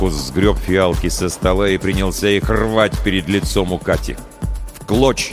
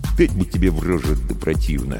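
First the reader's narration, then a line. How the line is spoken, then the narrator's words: Grumbled. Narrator (Russian): буркнул Маркус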